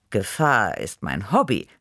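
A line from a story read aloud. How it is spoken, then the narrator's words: Purring with amusement. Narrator (German): schnurrte ich vergnügt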